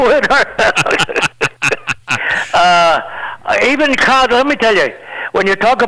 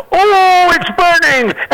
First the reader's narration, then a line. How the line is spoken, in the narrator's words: he's beginning to shout